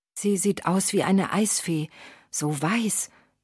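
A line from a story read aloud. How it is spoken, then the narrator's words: Young guard's reverent whisper. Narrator (German): wisperte andächtig Klaus, der Jüngste unter den Torwachen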